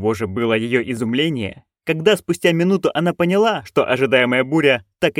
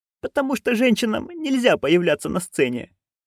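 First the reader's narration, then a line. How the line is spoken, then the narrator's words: Squeaked. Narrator (Russian): пискнула Маград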